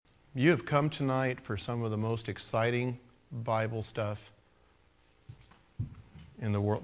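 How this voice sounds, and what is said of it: Sarcastic delivery. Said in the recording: “that was sarcasm.”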